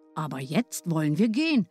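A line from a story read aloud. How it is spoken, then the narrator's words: Plain. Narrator (German): sagte Hänsel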